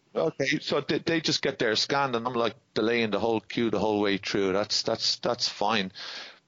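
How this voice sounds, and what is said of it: Irish accent. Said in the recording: “obviously in an Irish accent”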